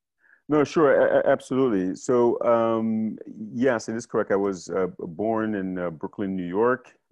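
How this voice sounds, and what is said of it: American accent. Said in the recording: “everyone can hear from your accent as well that you are from the US. You are the first American guest”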